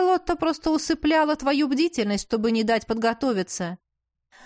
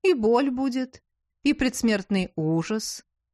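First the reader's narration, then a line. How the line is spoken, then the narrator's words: Sweetly menacing. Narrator (Russian): ласково сообщила высокородная садистка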